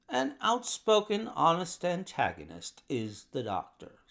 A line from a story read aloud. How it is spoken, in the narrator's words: said Holmes